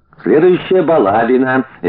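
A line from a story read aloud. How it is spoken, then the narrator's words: Man, cheerful from below. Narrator (Russian): весело подтвердил снизу мужик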